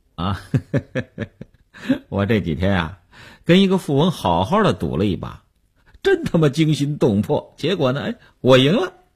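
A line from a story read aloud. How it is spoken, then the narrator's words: Said laughing. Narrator (Chinese): 刘文庆笑笑说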